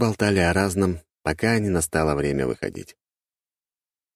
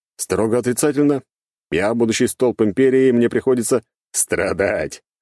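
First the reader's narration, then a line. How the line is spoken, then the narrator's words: Short laugh. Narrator (Russian): хохотнул я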